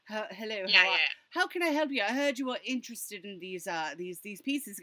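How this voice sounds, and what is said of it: Put-on British accent. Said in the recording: “he says that in a British accent.”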